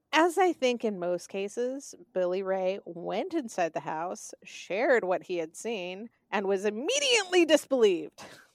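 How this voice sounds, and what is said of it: Southern American accent. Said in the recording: “anyone with a southern accent ... I am from the south, and this is how I sound when I have been talking too much during the day. This is just the sound I revert back to”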